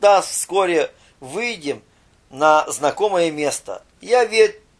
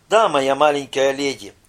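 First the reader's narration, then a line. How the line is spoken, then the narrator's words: Dejected admission. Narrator (Russian): упавшим голосом признал управляющий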